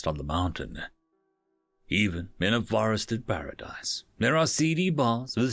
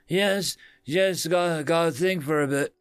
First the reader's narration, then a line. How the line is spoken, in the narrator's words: he slurred